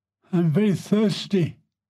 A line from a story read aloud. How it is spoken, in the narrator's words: he exclaimed